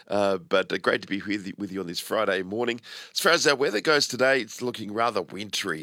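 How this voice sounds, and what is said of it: Rough, congested voice. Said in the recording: “Apologies for my voice. I've got a bit of a cold at the moment.”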